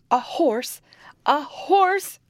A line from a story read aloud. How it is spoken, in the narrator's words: cried the king